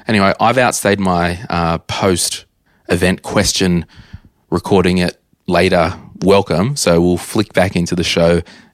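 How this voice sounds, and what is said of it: Strained, nearly lost voice. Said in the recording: “I've almost lost my voice.”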